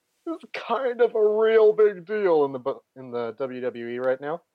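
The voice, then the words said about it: Creaky very old man voice. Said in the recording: “Were you swallowing a burp? ... doing a voice ... I turn into a 1,000-year-old man”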